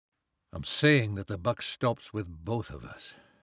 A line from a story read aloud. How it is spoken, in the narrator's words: Ben said, keeping his voice low